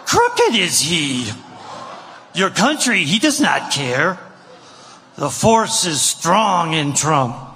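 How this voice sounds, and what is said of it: Yoda impression. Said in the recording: “Did anyone need him to do a Yoda impression? ... is that even a good Yoda?”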